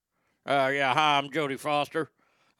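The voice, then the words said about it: Imitated voice with southern accent. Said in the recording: “I like to talk in a southern accent, even though I ain't from the South”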